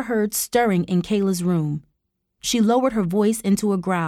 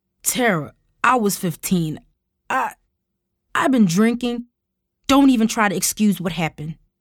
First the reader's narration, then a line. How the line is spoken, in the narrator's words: Tara snapped